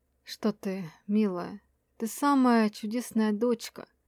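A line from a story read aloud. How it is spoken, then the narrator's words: Forced gentleness hiding rage. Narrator (Russian): Стараясь говорить ласково, ответил лорд Энрион, чтобы девочка не заметила ярость, клокочущую в его груди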